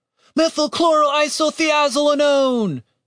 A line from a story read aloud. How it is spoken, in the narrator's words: Julian shouted